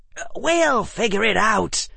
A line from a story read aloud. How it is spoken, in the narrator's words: Harry said, his voice tight